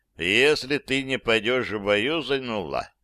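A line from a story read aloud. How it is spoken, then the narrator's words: Even steady voice. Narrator (Russian): тем же ровным голосом сказал князь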